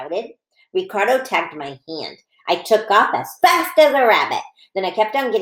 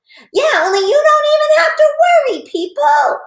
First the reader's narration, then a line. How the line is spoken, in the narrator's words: I hollered